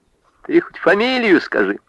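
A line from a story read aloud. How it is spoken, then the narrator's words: Laughing. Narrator (Russian): рассмеялась Варвара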